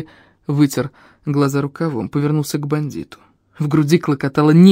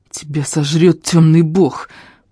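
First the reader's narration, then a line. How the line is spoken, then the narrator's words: Hissed through teeth. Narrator (Russian): прошипел, процедил Фари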